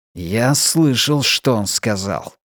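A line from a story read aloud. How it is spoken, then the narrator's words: Hiss. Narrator (Russian): прошипел он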